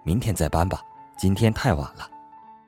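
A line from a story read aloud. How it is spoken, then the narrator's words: Flat, indifferent. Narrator (Chinese): 他对我淡淡的说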